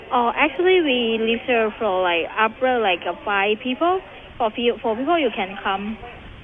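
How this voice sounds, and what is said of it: Pretty strong foreign accent. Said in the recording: “She has a pretty strong accent.”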